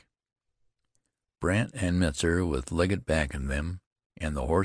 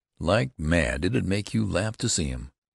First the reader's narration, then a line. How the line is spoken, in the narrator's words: replied Jonathan calmly